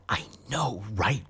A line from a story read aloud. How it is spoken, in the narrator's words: whispered Jill